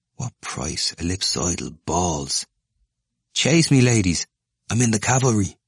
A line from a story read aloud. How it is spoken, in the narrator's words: Moynihan murmured